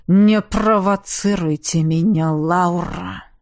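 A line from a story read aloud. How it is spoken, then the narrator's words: Low growling voice. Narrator (Russian): в его голос ворвалось глухое рычание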